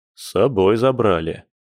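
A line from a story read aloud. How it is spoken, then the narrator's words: Gloomy report. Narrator (Russian): мрачно отрапортовал Борис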